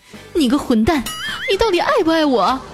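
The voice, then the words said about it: Sudden agitated shout. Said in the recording (Chinese): “情绪就越来越激动，突然大吼一声”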